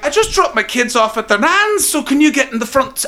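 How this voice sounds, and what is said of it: Put-on Scottish accent. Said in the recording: “I'm sorry for the accent. I'm really sorry. It's just, that's how I do it. I know that's not what you guys sound like.”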